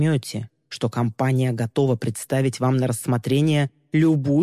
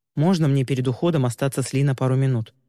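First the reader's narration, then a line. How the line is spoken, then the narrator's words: Plain question. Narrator (Russian): наконец спросил Тай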